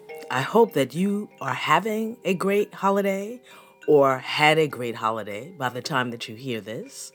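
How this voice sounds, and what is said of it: Deep, slightly sick-sounding voice. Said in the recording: “I sound a bit like a baritone, a little under the weather”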